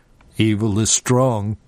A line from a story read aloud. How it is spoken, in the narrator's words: Dega said, his voice understandably monotone